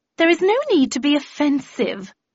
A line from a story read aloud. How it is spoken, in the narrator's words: replied Gloria haughtily